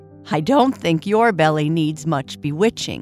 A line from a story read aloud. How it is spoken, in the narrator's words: Boo Boo laughed